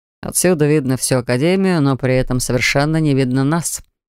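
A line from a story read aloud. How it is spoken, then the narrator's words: Calm reply. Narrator (Russian): спокойно ответил Морн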